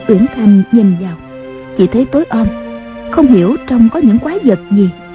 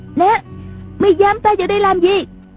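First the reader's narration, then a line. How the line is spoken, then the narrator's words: Panicked loud question. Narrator (Vietnamese): Mộc Uyển Thanh hốt hoảng vội lớn tiếng hỏi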